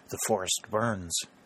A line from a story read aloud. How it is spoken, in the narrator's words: murmured